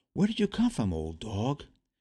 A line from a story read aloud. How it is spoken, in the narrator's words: Carefully approaching, he quietly said